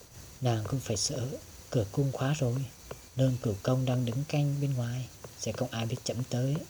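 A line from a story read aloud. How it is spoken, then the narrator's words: Very soft, almost whispering. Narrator (Vietnamese): Giọng hoàng đế rất khẽ như thầm thì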